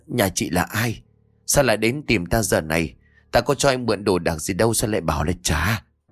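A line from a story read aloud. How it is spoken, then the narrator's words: Trembling question. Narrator (Vietnamese): Ông Bảnh run rẩy rồi hỏi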